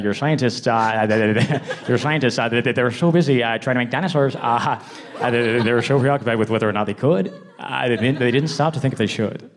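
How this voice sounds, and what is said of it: Imitates another person's voice. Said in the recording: “an incredibly good Jeff Goldblum impression ... the Jeff Goldblum impression”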